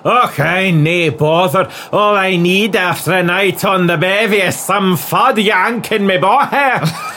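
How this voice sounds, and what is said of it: Sarcastic Scottish voice. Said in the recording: “I was being sarcastic”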